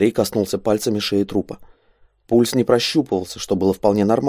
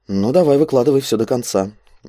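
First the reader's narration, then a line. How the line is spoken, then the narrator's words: Gloomy. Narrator (Russian): мрачно кивнул Андрей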